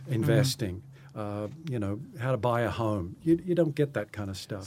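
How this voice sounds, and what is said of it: North Carolina accent. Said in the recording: “your accent, was it South Carolina? ... No. South Carolina. North Carolina.”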